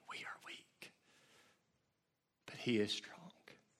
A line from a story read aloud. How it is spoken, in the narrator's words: Lottie would say gently